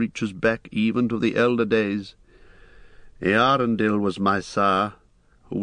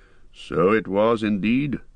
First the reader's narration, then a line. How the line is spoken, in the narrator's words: answered Elrond gravely